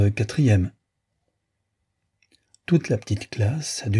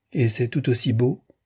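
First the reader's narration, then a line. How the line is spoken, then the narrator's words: Plain question. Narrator (French): demanda Judith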